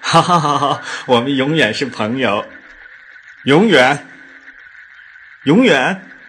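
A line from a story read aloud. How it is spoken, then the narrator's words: Laughing. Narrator (Chinese): 刚子笑了 说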